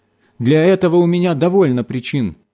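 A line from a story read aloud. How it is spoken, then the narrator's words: Shouted. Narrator (Russian): закричала она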